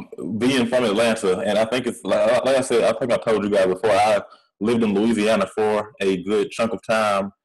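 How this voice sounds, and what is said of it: Southern US country accent. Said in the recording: “I speak very country ... this country accent that I have”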